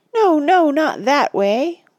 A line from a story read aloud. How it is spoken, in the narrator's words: wailed Sméagol